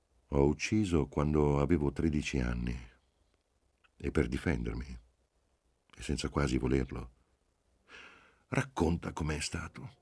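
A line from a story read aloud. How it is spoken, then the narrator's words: Calm voice. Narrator (Italian): Disse con voce calma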